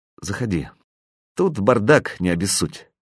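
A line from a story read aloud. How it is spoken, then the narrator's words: Suddenly cold voice. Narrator (Russian): сказала внезапно охладевшим голосом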